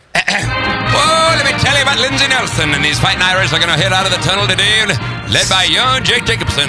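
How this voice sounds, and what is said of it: Southern-accented old-time sportscaster voice. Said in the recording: “I don't know why I have a Southern accent ... a little Keith Jackson and a little Lindsey Nelson”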